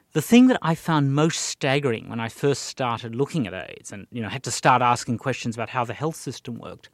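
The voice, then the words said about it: Australian accent. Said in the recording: “as an Australian, which I guess people could tell from the accent”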